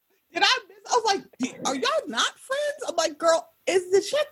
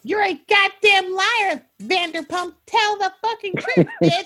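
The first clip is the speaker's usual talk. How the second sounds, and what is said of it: Imitates another person's voice. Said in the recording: “great Rinna impression”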